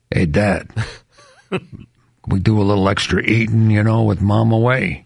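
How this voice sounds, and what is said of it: Pet character voice, Brooklyn accent. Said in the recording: “he has a Brooklyn accent”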